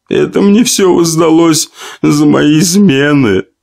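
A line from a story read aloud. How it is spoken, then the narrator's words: Tearful young woman. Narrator (Russian): продолжила сквозь слезы полная молодая женщина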